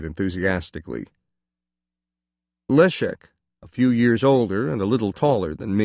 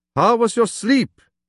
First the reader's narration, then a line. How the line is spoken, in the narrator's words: he asked, nearly shouting at the end of the sentence